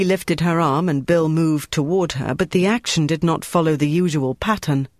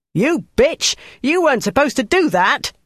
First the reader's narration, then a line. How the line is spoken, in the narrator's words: yelled